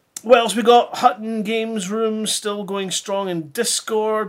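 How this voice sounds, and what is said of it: Scottish accent. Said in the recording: “could it be something to do with you being Scottish? ... if you have a particularly different accent or if you speak proper, like what we do up here in Scotland”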